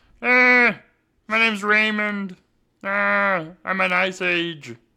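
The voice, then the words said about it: Imitates another person's voice. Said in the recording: “It's not a bad impression, is it? It's a little bad.”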